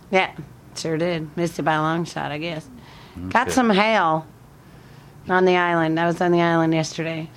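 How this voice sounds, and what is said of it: Mixed northern and southern US accent. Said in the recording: “did you get this accent from living in Alabama? ... sometimes you talk like a person up north, but then sometimes you talk about like a southerner”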